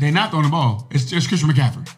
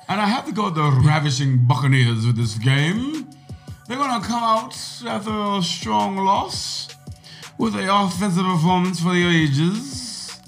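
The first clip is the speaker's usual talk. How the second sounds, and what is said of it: Put-on unfamiliar accent. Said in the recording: “What accent is this? ... I don't know, but it's not my normal one.”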